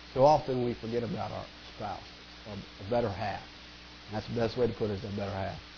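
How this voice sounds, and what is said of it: Strained, fading voice. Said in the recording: “I'm kind of losing my voice here”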